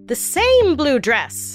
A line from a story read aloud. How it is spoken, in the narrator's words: prosecutors cried